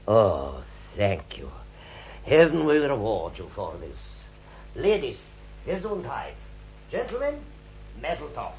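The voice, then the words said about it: German accent. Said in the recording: “talks with a German accent”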